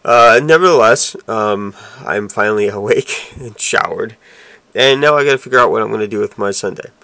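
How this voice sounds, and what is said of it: Rough voice from a cold. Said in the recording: “this allergy cold thing that I'm going through. You can hear my voice is still pretty rough.”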